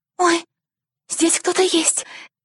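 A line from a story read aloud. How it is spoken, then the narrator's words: Sweet trilling doll's voice. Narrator (Russian): воскликнула кукла Роза своим милым голоском, похожим на трель кларнета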